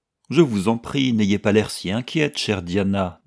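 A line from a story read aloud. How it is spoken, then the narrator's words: Cheerful. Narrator (French): dit-elle gaiement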